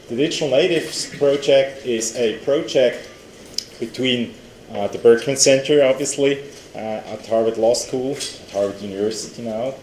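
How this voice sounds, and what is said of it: European accent. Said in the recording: “You can hear that from my accent, ... that I'm European.”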